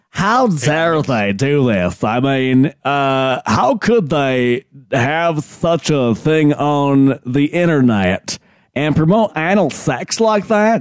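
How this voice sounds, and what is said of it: Imitates another person's voice. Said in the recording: “I haven't heard Lindsey Graham in a long time. I don't know if my impression's that good.”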